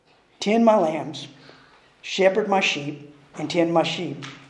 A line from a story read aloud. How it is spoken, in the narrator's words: the great shepherd would gently say